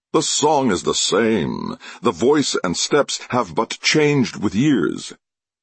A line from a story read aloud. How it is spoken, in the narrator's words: he cried